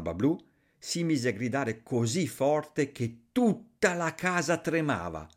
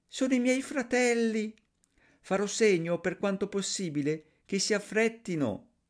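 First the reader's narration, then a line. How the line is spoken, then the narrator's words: Woman exclaiming. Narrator (Italian): esclamò l'altra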